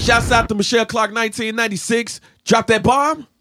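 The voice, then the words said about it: Radio DJ announcer voice. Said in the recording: “radio voice”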